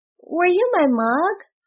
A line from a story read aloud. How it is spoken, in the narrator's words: said Gluck timidly